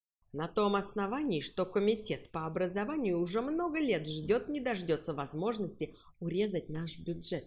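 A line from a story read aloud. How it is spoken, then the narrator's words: Plain. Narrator (Russian): сказал директор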